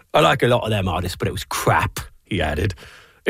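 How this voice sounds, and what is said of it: Put-on British accent. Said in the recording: “I'm going to read it in a British accent for you.”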